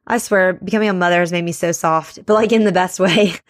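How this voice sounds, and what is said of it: Teary, emotional voice. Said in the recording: “I'm getting teary.”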